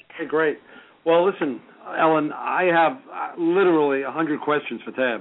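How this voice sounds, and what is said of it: New York accent. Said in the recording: “another aggressive, progressive contractor up in New York, if you can't tell by his voice already”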